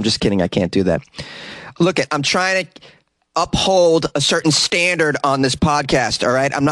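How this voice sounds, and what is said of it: Usual voice. Nothing is said of it.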